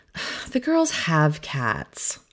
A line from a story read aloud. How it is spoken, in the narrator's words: sigh